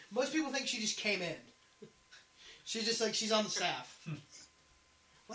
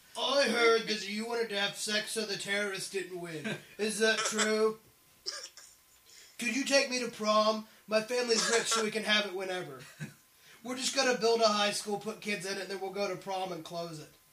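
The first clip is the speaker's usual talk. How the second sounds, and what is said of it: Imitates another person's voice. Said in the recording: “Exactly how she sounds.... It's my Khloe Kardashian impression.... If I closed my eyes, I would think that she was here with us.”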